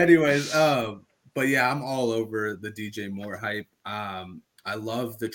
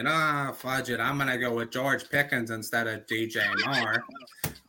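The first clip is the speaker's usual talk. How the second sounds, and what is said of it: Imitates another person's voice. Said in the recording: “that's my Jordan impression”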